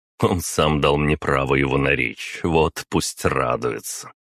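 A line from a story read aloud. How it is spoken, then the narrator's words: Chuckling. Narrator (Russian): хохотнул я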